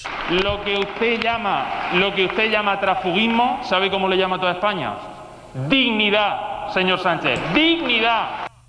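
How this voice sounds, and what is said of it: Shouting in a rising crescendo. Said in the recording (Spanish): “Con grito lo ha dicho, ¡dignidad! ... Os pido atención al crescendo de grito, porque lo dice varias veces ... en el último dignidad pone el acento en la I”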